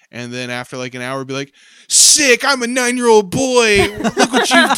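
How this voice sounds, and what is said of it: Usual voice. Nothing is said of it.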